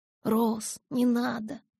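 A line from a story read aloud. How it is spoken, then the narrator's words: Whisper. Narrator (Russian): прошептала Белла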